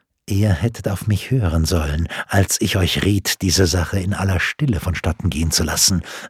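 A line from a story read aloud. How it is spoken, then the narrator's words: Worried low murmur. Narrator (German): raunte beunruhigt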